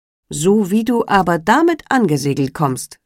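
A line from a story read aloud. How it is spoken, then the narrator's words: Plain. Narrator (German): sagte er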